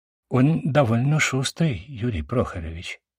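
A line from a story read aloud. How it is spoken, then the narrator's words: Quiet. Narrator (Russian): тихо сказал мерза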